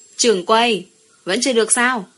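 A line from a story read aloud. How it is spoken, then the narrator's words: Impatient loud shout outside. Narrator (Vietnamese): Ngoài phòng bao, Đường Mãn Lâu đợi lâu quá, quát lớn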